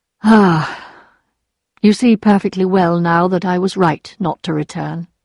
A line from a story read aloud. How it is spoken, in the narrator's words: he said sadly